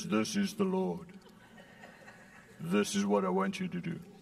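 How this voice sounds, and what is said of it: South African accent. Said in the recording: “with a South African accent”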